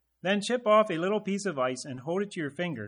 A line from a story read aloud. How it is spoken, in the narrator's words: said the voice